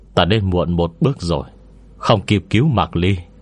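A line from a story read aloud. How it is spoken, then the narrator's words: Sighing. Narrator (Vietnamese): Gà thở dài một hơi, nói với Lưu Hỷ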